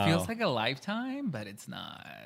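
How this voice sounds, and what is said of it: Speaks with vocal fry. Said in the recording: “vocal fry?”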